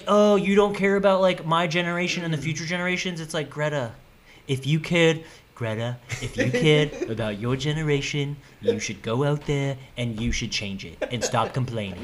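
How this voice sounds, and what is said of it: Imitates another person's voice. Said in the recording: “I don't know if I'm a good Biden impression, but that was pretty good. Yeah, I thought that was a pretty good Biden.”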